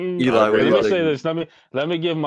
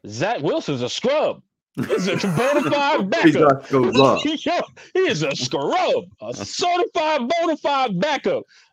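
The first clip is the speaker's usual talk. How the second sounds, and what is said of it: Stephen A. Smith impression. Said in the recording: “my best Stephen A. Smith impersonation”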